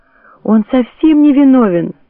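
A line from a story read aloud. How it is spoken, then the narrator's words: Tearful. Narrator (Russian): сквозь слезы проговорила она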